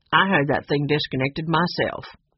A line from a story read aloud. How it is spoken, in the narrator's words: Cap told him crossly